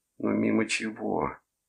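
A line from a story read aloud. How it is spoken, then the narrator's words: Near moan. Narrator (Russian): почти простонала Дельпьеро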